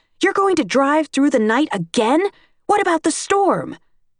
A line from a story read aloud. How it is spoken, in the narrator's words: she shouts